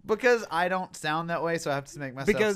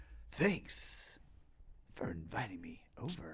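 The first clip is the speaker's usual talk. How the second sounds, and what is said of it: Sinister, whispery imitation of an actor. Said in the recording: “all of your voices have a real like sinister whispery tone to them ... So William Shatner is like”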